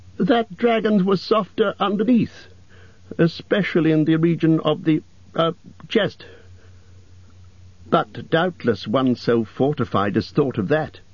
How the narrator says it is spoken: said Bilbo in a frightened squeak

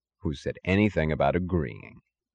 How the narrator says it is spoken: said Mr

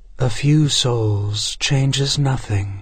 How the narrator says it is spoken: she sighed

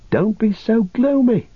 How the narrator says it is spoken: cried Pippin

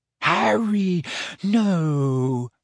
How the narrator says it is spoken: moaned Hermione

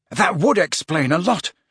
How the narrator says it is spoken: panted Harry, now positively wrestling with Ron

